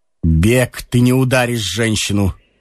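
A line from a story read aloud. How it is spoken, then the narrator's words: Calm. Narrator (Russian): сказал Ромашов спокойно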